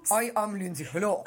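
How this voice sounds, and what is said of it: Fake put-on accent. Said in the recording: “I'm kind of putting on a fake accent”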